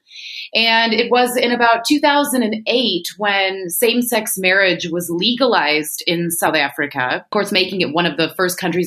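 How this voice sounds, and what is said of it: American accent. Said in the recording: “as you and your listeners might hear in my voice, I am an American”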